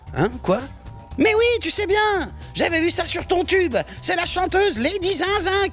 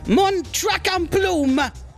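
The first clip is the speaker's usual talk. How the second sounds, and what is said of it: Put-on English accent. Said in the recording (French): “avec un bel accent anglais”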